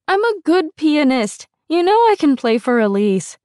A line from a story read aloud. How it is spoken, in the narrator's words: whined